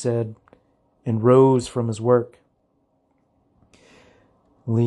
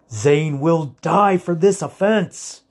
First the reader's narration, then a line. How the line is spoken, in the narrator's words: said fiercely